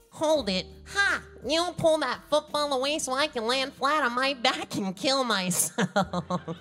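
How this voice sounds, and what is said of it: Charlie Brown character voice. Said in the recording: “Is there any way you feel like you could still do the voice? ... What Charlie Brown was that?”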